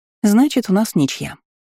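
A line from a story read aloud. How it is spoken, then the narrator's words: Cheerful. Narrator (Russian): весело произнесла я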